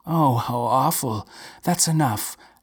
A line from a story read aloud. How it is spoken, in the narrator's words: gasped Maria, covering her face with her hands